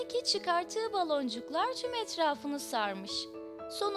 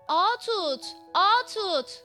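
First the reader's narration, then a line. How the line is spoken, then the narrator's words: Gull shouting. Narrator (Turkish): diye bağırmış martı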